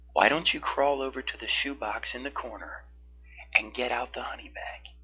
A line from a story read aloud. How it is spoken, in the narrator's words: He asked softly